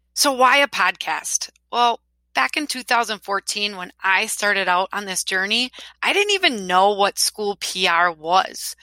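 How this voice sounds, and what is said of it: Wisconsin accent. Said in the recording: “maybe at least you'll be entertained by my accent, right? I'm from Wisconsin.”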